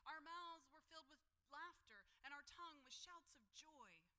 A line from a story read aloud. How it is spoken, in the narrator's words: the psalmist exclaimed